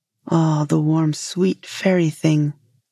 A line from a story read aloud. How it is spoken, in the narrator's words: said the fisherman